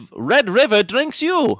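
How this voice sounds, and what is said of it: Put-on Russian accent. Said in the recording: “That's the only accent I got right. ... that's how I get into Russian.”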